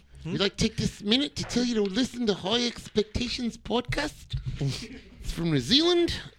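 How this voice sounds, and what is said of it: Put-on New Zealand accent, German-sounding. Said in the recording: “Everybody do your New Zealand accent ... You turned German for a second there”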